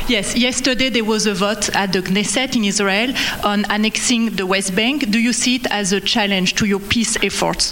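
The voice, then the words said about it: French accent, hard to understand. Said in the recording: “You're from France, beautiful accent, but we can't understand what you're saying.”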